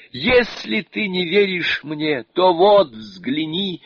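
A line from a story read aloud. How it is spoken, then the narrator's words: Sobbing exclamation. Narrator (Russian): Сюаньцзян, громко рыдая, воскликнул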